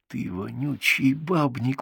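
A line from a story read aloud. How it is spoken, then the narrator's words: Hiss. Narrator (Russian): прошипел я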